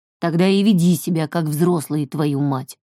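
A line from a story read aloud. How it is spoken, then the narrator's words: Grumbled. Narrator (Russian): проворчал Альф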